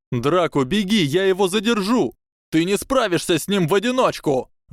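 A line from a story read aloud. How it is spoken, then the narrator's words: Shouted. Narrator (Russian): выкрикнул Драко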